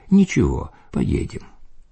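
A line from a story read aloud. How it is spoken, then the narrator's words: Calm remark. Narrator (Russian): Владыка же спокойно заметил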